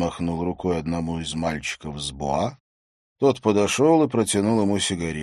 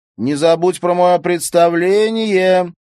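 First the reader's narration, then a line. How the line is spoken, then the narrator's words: Shouted. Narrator (Russian): крикнул Отто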